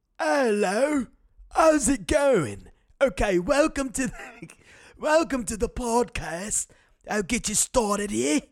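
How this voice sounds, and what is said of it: Feeble old British man accent. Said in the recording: “the British accent, I'm not good at either. But I found that if you sound like a fucking old ass feeble British man”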